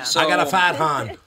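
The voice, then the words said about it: Put-on Boston accent. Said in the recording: “In a Boston accent”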